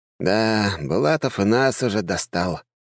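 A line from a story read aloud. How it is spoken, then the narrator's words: Sigh. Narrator (Russian): вздохнул Джованни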